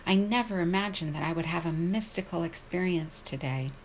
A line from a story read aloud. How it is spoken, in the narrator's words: him exclaim with apparent joy